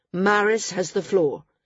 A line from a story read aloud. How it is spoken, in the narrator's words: Jameis said firmly